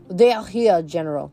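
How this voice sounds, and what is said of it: Put-on French accent. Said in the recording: “spoke in his weird French accent ... Forgive me if that accent was bad”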